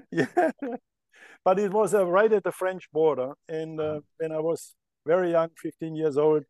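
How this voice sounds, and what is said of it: Slight German accent. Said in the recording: “we hear a little bit of an accent”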